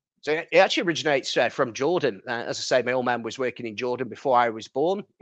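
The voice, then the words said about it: Northern English accent. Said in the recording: “a northern accent”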